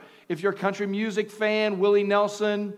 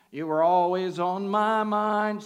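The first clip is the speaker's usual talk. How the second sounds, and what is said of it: Imitates another person's singing voice. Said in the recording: “my best Willie Nelson impersonation”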